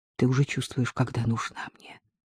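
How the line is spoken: Quick whisper in ear. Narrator (Russian): Артем быстро прошептал на ухо

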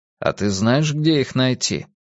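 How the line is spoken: Raspy smoker's grumble. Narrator (Russian): Прокуренным голосом буркнула

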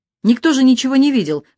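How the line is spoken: Exclamation. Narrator (Russian): воскликнул Андрюха

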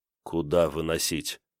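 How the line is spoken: Dejected question. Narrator (Russian): упавшим голосом спросил Кирилл

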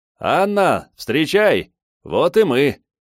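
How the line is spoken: Shouting. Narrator (Russian): прокричал Долгов

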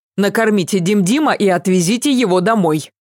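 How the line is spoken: Barked. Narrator (Russian): рявкнула

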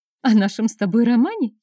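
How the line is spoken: Embarrassed, sly giggle. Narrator (Russian): хихикнула смущенно, в точности, как прежняя лукавая Лисонька

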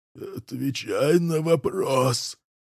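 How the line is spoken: Howl cracking into squeal. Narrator (Russian): взвыл он, и его голос сорвался на виск

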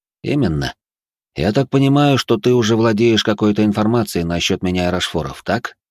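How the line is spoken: Plain. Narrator (Russian): спросил я

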